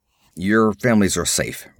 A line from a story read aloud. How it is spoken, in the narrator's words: grunted Conan